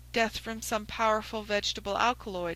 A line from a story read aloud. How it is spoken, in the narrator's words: I answered